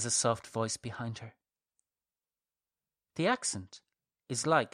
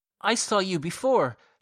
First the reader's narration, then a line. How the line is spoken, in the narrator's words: she blurts out